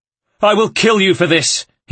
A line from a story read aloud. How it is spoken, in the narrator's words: he screamed, his voice straining with hatred and rage